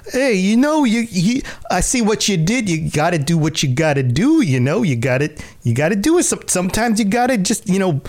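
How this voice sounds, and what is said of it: Mob boss character voice. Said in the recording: “Are you mocking my accent? ... I'm being a mob boss.”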